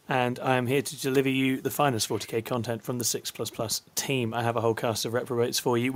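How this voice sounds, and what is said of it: Hoarse, worn-out voice. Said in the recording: “My voice is going because I was out late a couple of days ago”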